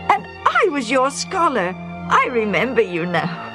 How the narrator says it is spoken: the younger man exclaimed

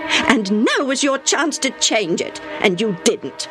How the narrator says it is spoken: snapped

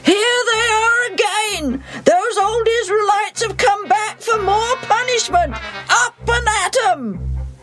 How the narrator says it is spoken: the king of Ai yells

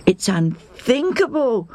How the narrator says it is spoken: they moan

